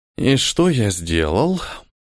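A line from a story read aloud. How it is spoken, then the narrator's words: Mutter. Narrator (Russian): пробормотал Ниэль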